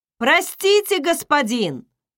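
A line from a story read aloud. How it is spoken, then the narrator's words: Captain's distant shout. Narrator (Russian): крикнул капитан находясь всего в 50 футах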